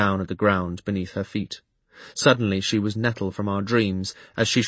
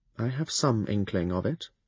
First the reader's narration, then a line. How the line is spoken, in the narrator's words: I replied quietly